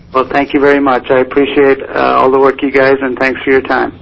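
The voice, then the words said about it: Slight Irish accent. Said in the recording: “I detected a slight accent ... I am from Ireland.”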